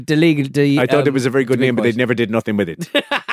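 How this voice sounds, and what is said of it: Irish accent impression of Sheamus. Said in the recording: “I've been working on my Irish accent. I'm not sure it's any better.”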